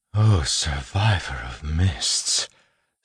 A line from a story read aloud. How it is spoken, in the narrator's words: Steris breathed